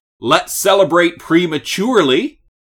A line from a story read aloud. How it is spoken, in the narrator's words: yells out